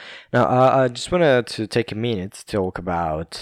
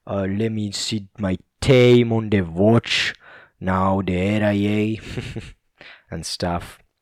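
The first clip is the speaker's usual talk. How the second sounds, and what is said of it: Imitated Scottish accent. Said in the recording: “how cool is Sean Connery's accent? It's like this Scottish man ... But you gotta keep talking about this with this accent”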